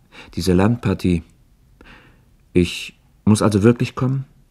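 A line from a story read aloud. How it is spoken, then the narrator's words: Hesitant question. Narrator (German): fragte er zögernd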